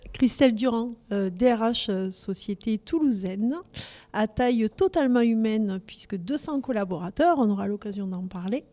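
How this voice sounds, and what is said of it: Toulouse southern French accent. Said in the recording (French): “de pure toulousaine aussi. Et mon accent est là pour le dire.”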